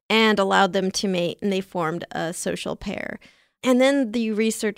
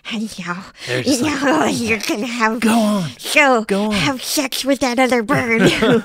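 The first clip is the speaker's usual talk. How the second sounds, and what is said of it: Convincing horny scientist impression. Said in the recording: “that was a very convincing impression. ... Horny scientist, much better than your German impression.”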